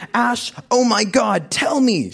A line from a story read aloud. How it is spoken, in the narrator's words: shrieked into the phone